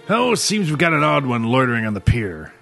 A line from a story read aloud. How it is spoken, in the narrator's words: Dunkirk growled in annoyance